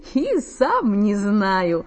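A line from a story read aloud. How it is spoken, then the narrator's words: Laughing. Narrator (Russian): засмеялся Саша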